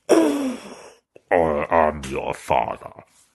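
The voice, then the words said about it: Poor Darth Vader impression. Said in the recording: “That was a poor impression.”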